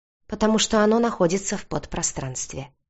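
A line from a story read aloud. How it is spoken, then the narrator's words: Calm explanation. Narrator (Russian): спокойно пояснил Алексей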